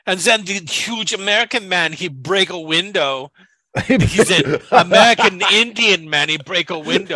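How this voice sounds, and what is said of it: Put-on Scandinavian accent, broken English. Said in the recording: “I have no idea what this accent is ... A Scandinavian accent is not an accent that I've ever been able to do.”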